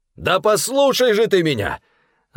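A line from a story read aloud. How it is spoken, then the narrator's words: Yelling over noise. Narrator (Russian): заорал Стефан, перекрывая грохот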